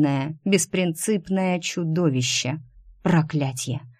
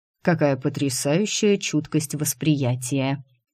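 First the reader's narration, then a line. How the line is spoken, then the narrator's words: Amused grunt. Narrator (Russian): хмыкнул Дайм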